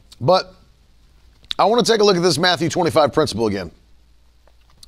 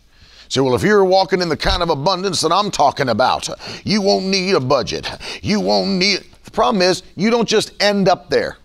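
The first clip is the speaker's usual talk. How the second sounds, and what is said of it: Put-on Southern accent. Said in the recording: “I always go to the Southern accent.”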